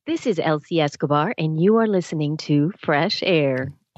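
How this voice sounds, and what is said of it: NPR radio announcer voice. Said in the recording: “put on your best NPR voice”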